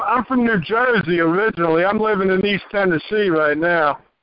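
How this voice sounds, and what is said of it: Heavy accent. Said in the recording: “I got a heavy accent.”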